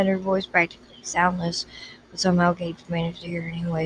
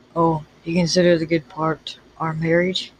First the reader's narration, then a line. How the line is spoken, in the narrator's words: growled